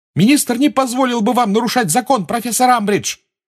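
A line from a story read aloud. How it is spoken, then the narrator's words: Shouting. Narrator (Russian): крикнула Гермиона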